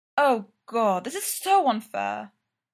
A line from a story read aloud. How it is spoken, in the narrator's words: Styles moans